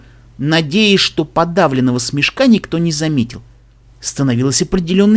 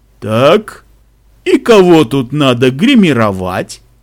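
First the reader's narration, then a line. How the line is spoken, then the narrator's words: Deep bass question. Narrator (Russian): спросила она басом, которому позавидовал бы и Гореб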